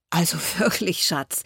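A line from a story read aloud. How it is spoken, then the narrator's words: Laughing, male. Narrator (German): lachte er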